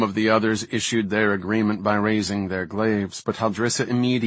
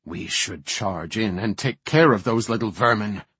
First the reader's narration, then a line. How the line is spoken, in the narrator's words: snarled one sentinel